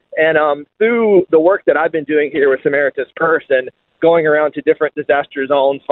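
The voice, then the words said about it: American accent. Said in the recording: “You may be able to tell from my accent, but I'm not originally from here. I'm American.”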